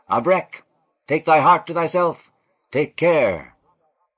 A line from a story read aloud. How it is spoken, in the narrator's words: panting runners who cried out